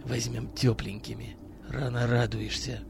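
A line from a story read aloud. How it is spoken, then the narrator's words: Barely audible reply. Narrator (Russian): Еле слышно ответил Миронов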